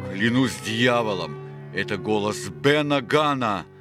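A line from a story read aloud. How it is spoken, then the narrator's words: Roared. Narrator (Russian): проревел Сильвер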